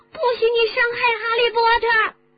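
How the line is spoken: Shouting. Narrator (Chinese): 多比喊了起来

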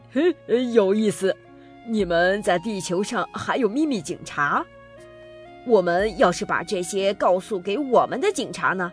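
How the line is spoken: Plain. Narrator (Chinese): 教授说

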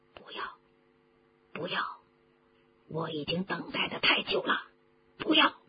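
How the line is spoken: Low voice. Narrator (Chinese): 他低声地说

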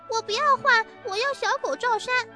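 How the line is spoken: Whining clamor. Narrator (Chinese): 丽丽又嚷起来

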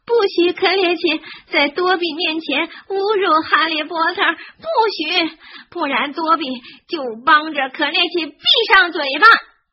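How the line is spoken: Shrieking. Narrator (Chinese): 多比尖叫着

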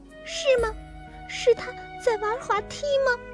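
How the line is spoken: Tearful, smiling. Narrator (Chinese): 小刺猬挂满泪珠的脸笑了

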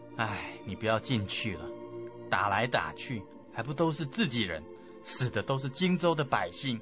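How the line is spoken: Sighing. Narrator (Chinese): 刘备叹了一口气说

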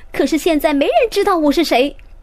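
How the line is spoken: Shouting. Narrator (Chinese): 詹姆士也嚷起来

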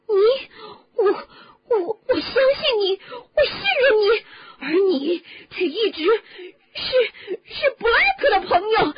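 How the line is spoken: Shouting, voice shaking uncontrollably. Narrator (Chinese): 哈利对卢平大叫，他的声音抖得失去了控制

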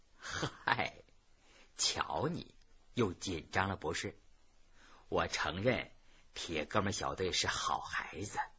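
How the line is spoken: Laughing. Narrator (Chinese): 孙老师立刻笑了

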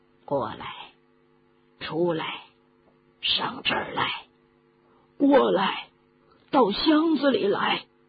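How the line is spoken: Hoarse, low voice. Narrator (Chinese): 有人用沙哑的嗓音低声地说

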